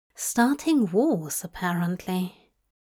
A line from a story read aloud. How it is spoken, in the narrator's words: Aziraphale mumbling